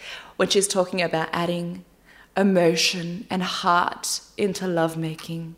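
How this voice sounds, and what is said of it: Usual voice. Nothing is said of it.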